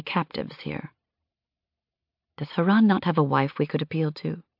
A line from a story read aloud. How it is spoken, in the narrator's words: I whispered to Yaltha